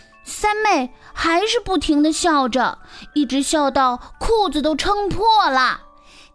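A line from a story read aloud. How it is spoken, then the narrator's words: Sighing. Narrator (Chinese): 胖胖的仆人一面叹气，一面对士兵说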